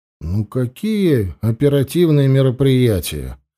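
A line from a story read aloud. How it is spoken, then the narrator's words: Conciliatory tone. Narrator (Russian): Примиряющим тоном сказал Данилов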